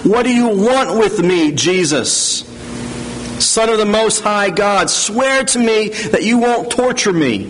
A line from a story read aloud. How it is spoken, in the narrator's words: He shouts at the top of his voice